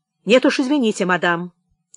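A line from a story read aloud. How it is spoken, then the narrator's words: Sharp reply. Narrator (Russian): резко ответил Штоф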